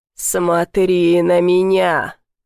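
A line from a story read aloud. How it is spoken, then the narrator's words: Harsh metallic demonic rasp. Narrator (Russian): Голос демона царапал стальной хрипотцой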